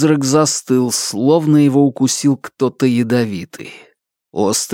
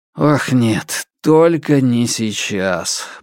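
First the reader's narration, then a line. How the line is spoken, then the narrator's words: Grumbling mutter. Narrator (Russian): буркнул я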